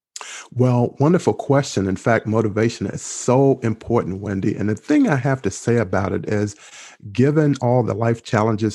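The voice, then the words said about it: Calming accent. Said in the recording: “I love your accent. I have to say, it's very calming, you know. ... it's very motivational”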